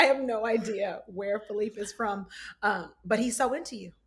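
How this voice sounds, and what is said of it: Usual voice. Nothing is said of it.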